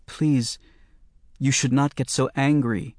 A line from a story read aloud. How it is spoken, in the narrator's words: Danny's sister pleaded softly